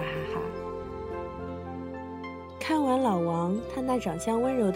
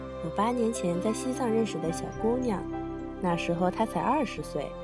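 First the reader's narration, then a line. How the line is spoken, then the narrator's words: Soft, gentle. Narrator (Chinese): 老王柔声说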